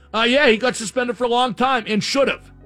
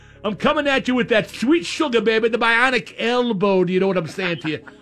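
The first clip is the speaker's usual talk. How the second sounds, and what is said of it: Dusty Rhodes impression. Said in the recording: “I do a decent Dusty imitation.”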